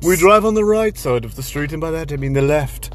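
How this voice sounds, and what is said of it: Put-on accent. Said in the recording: “don't do the accent”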